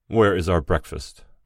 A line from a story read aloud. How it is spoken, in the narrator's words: the middle gentleman asked the cleaner irritably